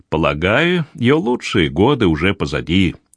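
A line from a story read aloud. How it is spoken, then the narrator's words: Booming drone. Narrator (Russian): прогудела леди Пентрит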